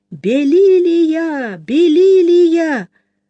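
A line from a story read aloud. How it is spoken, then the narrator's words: Shouting through cupped hand. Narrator (Russian): поднял руку ко рту и крикнул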